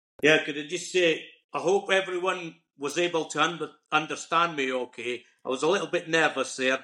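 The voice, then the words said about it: Broad Scottish accent. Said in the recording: “my Scottish accent, I hope it wasn't too broad a Scottish accent”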